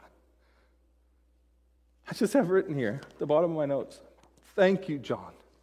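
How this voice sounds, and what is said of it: Emotional, choked-up speech. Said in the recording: “got emotional. Now I'm like getting emotional”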